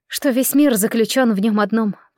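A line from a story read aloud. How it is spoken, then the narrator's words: Whisper. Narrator (Russian): прошептала я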